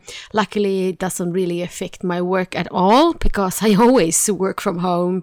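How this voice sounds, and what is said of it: Sick-sounding, flu-affected voice. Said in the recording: “as you can hear from my voice, I have a flu”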